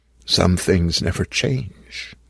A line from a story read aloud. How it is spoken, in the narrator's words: I whispered